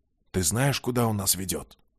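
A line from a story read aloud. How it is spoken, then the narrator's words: Whispered question. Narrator (Russian): Шепотом поинтересовался обережник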